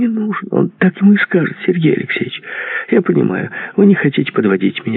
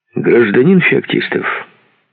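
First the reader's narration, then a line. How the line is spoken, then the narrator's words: Stern voice. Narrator (Russian): суровым голосом произнес Альтман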